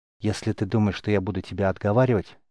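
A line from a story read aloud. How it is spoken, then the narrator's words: Passionate whisper. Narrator (Russian): с жаром прошептал Рис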